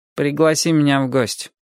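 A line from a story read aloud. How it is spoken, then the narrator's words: Gloomy suggestion. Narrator (Russian): мрачно предлагает Фредди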